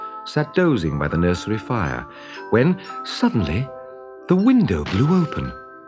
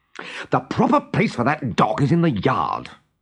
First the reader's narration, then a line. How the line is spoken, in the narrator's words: he said crossly